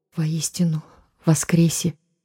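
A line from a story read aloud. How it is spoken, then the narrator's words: Quiet frightened whisper. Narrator (Russian): тихо прошептал караульный в ответ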